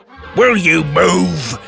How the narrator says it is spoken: he roared

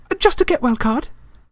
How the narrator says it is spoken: said Hermione hastily

